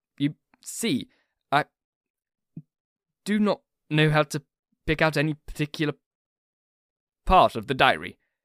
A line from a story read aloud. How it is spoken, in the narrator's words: he stammered out